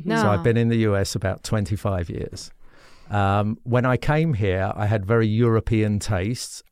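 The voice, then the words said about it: Non-native, foreign-born English accent. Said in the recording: “you can tell from my accent, I wasn't born here”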